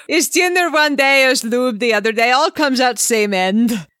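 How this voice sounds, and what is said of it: Vague Eastern European accent. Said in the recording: “I have no idea what that accent was. Vague Eastern European. ... Potentially Russian.”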